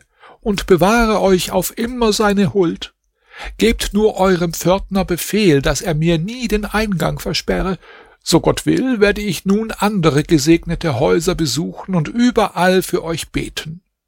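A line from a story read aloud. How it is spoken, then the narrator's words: Calling old woman. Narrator (German): rief die Alte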